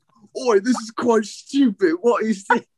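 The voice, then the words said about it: Put-on British accent. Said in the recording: “But that's the only British accent I can do.”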